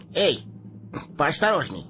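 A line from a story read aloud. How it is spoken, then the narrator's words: Snapping retort. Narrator (Russian): огрызнулся хоббит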